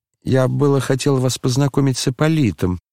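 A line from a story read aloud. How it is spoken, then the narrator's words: Plain. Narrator (Russian): сказал Коля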